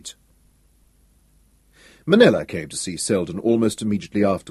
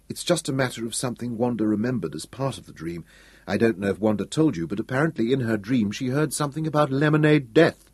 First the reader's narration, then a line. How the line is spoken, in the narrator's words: said Selden soothingly